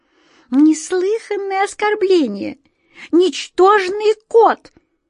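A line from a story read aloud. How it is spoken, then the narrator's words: Indignant squeak. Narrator (Russian): возмущенно пищала мышь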